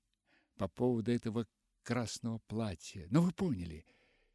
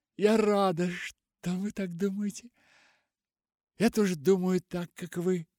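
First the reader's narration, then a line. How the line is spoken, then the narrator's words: Sobbing speech. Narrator (Russian): Полианна снова всхлипнула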